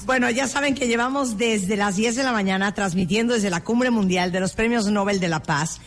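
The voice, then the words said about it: Spanish with a Nicaraguan accent. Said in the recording (Spanish): “Tú eres de Nicaragua. ... me sale el acento, ¿verdad? ... Hablaste como Boris Karloff, el de las caricaturas.”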